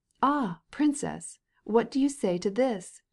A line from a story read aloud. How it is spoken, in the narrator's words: cried Stepan Arkadyevitch, who, with a radiant smile of joy